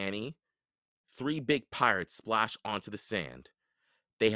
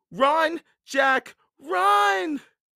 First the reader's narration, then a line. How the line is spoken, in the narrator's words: cried Annie